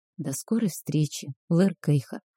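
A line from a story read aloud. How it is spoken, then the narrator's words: Whispered farewell. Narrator (Russian): шепнула напоследок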